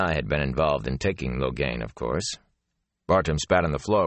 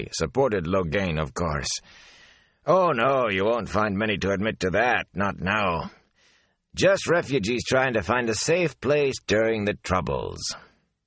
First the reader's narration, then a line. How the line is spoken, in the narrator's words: Bartim chuckled wryly